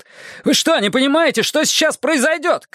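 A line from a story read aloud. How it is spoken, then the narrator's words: Shout. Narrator (Russian): крикнул я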